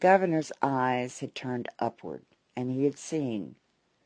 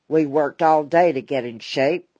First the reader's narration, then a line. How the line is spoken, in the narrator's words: grumbled Harry Weston